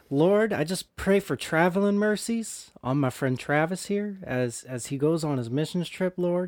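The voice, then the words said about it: Bad put-on Southern accent. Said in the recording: “really bad Southern accents ... This is an insult to all my Southern friends.”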